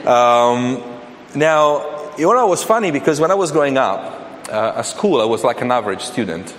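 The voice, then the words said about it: Italian accent in English. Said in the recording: “as you noticed from my accent, I'm not English. In fact, I'm Italian.”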